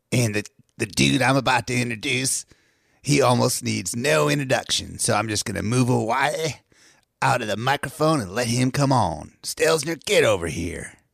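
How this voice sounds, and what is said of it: Wolfman Jack radio DJ impression. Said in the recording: “that was me impersonating Wolfman Jack”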